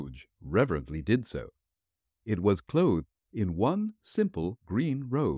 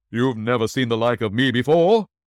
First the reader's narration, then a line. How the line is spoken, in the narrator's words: exclaimed the spirit